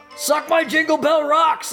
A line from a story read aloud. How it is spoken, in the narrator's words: I would like to yell out